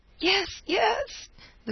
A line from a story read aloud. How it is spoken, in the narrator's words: the girl cried shuddering